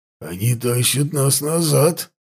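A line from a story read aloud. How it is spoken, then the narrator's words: Hoarse report. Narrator (Russian): хрипло сообщил Даргаш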